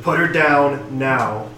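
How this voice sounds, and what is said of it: Menacing threatening voice. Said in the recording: “in my most menacing voice possible ... Very menacing.”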